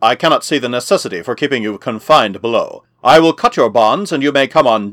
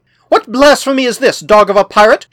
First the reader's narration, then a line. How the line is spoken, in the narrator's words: cried